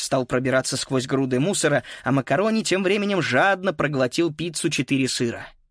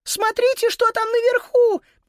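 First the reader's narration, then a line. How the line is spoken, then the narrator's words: Squeaky voice. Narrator (Russian): пискнула Сузи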